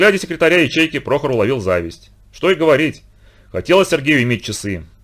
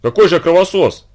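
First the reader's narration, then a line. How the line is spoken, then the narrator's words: Offended. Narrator (Russian): обиженно заговорил Прохор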